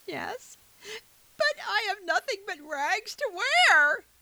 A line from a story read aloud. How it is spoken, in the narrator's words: sobbed poor Cinderella